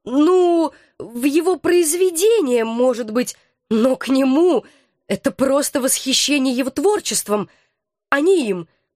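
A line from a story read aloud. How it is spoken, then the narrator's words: Timid babbling. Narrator (Russian): пролепетала я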